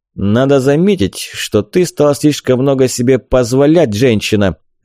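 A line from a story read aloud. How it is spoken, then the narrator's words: Barking. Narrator (Russian): рявкнул он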